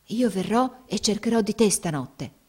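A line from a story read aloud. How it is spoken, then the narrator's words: Whispered. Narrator (Italian): le sussurrò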